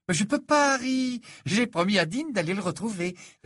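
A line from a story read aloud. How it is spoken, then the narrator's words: Joyful reply. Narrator (French): répondit Ginny d'un ton joyeux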